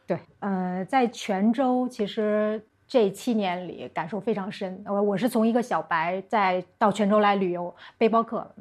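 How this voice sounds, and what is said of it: Beijing accent. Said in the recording (Chinese): “这个口音大家能听出来，应该是北京人。”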